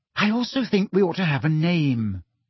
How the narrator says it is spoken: she said brightly

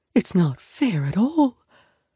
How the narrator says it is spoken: Mom whispers

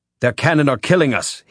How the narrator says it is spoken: he shouted

